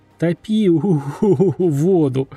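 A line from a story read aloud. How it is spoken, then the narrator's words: Struggling through laughter. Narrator (Russian): сквозь смех пытался выговорить я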